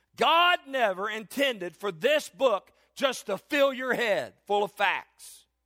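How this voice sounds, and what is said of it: Raised, loud preaching voice. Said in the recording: “I'm raising my voice in this because I want everybody to hear me.”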